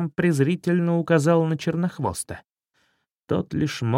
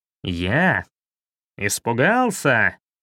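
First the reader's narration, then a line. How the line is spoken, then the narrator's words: Bark. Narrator (Russian): рявкнул Шрам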